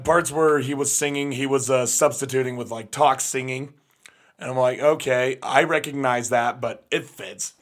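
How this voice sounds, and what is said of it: Slightly strained, losing voice. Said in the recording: “I'm losing my voice a little bit because of practice 2 days ago. I just overdid myself”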